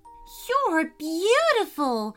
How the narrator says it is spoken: exclaimed Maddie

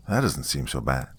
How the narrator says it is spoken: he murmured, voice low

